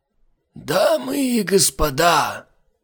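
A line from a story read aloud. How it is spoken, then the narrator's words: Loud hoarse whisper. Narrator (Russian): громко и сипло зашептал он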